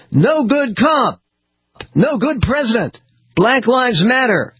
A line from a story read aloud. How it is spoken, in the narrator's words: Marchers yelled chants